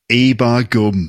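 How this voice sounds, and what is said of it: Put-on Yorkshire accent. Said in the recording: “he's going into a Yorkshire accent now”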